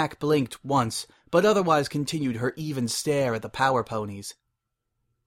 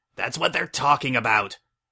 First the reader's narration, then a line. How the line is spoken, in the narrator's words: Zap roared